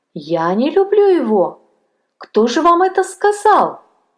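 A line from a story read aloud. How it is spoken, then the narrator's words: Exclaiming. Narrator (Russian): воскликнула она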